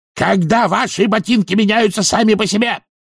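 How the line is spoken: Barked. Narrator (Russian): рявкнул он

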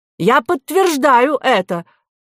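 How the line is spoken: Exclaiming. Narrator (Russian): воскликнул доктор Гермес Полонский

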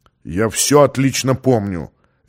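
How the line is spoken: Sharp reply. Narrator (Russian): резко ответил тот

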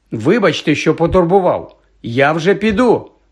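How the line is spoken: Almost shouting. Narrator (Ukrainian): мало не крикнув

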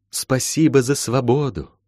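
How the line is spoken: Parting whisper. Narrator (Russian): шепнула напоследок

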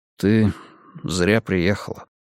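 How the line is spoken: Quiet. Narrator (Russian): тихо сказал он

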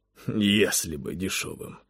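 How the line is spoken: Sigh. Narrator (Russian): вздохнул Завулон

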